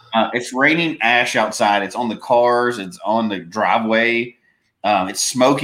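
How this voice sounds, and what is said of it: Congested voice, sounds like a cold. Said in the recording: “I sound like right now I have a cold, but it's just from breathing all this smoke”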